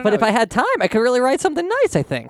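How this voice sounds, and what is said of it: Voice pitch spiking upward. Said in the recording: “my voice is spiking”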